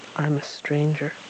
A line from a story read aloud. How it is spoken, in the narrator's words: the stranger said, his voice sad and distant, as if he had expected more